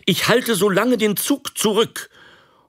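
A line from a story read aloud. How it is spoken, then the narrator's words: Calling out. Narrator (German): rief er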